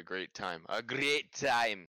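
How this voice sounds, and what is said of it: Put-on accent. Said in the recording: “Ooh, I like the accent.”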